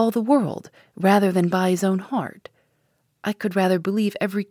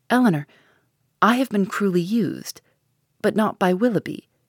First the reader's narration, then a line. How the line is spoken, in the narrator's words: she added in a firmer tone